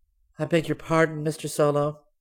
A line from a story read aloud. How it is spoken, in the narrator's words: Jerry Terry asked sweetly